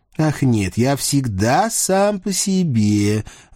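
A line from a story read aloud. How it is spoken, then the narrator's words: Lazy bored drawl. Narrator (Russian): вальяжно протянул Льюи со скучающим видом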